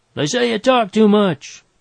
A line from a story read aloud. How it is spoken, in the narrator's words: he yelled